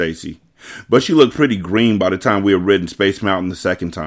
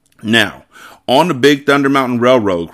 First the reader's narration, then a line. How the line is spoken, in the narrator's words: cried David Michael Thomas